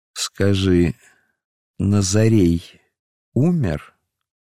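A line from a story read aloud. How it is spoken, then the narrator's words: Slow, distinct interrogating question. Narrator (Russian): Пилат медленно и внятно, как на допросе, спросил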